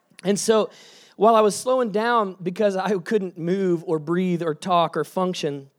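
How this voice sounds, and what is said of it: Hoarse, sick-sounding voice. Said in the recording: “I got that death zombie virus that other people have gotten. I'm still like on the tail. You can hear my sexy voice.”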